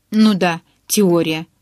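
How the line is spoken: Snorting. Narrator (Russian): фыркнула я

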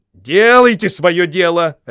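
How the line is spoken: Butler barking. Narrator (Russian): рявкнул дворецкий

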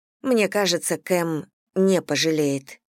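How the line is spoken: Even level voice. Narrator (Russian): ровным голосом произнесла Элли

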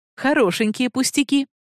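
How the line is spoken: Mother's exclamation. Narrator (Russian): воскликнула мама

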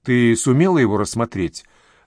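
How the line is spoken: Plain. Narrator (Russian): спросила Сакс

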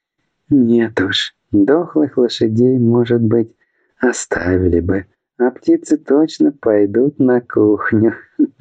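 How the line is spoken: Mocking female laughter. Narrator (Russian): рассмеялась ему в лицо пиратка

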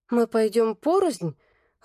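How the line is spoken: Timid question. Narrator (Russian): робко поинтересовалась я

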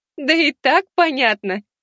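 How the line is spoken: Giggling. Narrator (Russian): Хихикнула Елена

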